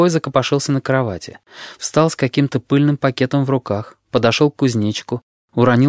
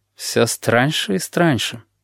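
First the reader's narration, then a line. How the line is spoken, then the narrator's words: Mutter. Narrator (Russian): пробормотал он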